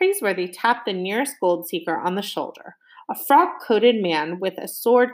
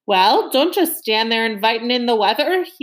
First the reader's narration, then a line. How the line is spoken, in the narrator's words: he said in a voice like the roar of a cannon